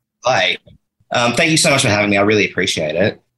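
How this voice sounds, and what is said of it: Australian accent. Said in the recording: “do I hear an accent? ... you can hear the Australian.”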